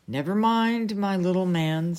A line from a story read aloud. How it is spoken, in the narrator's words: said Merlyn